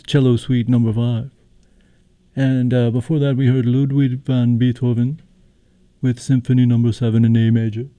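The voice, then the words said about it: Imitates a 1970s radio DJ. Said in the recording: “my best impersonation of a 1970s WCVE DJ”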